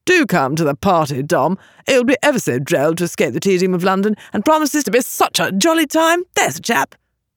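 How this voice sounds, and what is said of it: Exaggerated posh upper-class drawl. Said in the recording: “With an exaggeratedly affected patrician accent, he drawled”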